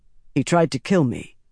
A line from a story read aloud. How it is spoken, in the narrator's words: Tam said in a level voice